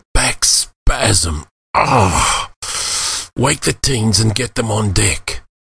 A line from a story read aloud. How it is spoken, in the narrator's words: Wheezing, Khalid replied